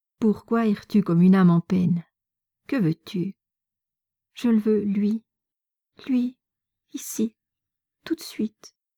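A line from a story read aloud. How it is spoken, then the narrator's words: Jerky, excited voice. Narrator (French): répliqua Natacha, les yeux brillants et d'une voix saccadée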